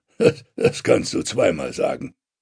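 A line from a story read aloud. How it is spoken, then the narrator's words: Growled. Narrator (German): knurrt Ragnar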